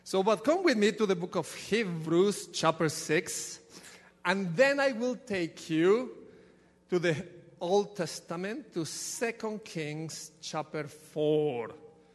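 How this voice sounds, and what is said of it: Ecuadorian Spanish accent. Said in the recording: “You will get used to my accent... from Ecuador, there is nothing that I can do with this accent”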